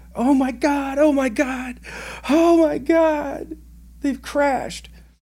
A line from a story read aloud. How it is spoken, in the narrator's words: I hear over the radio screaming